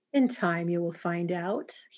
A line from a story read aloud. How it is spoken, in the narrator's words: he purred